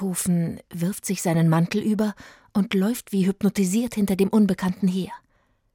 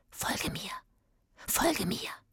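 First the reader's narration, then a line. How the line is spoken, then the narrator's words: Whisper. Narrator (German): flüstert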